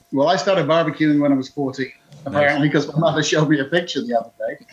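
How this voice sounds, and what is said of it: Slight British accent. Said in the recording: “I'm sensing a little bit of an accent there ... We call it Al British.”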